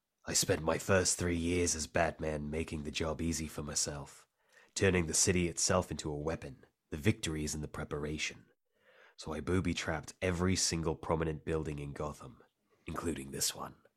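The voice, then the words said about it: Jason Statham impression. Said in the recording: “I got to do the Statham voice.”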